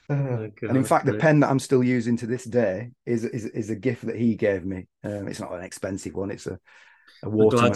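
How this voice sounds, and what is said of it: Bolton, northern English accent. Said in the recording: “little little place called Bolton. It's near Manchester... I thought I recognised the accent... I'm glad you haven't lost your accent”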